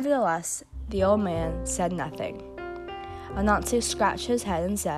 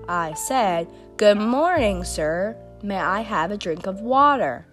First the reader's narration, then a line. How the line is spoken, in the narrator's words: Anansi, who thought the old man might have been deaf, repeated in a loud voice